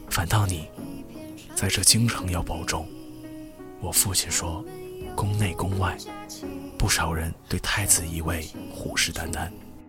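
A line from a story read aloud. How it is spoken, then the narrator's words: Lowered voice. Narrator (Chinese): 声音低下来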